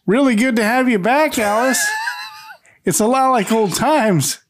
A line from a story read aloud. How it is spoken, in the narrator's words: says loudly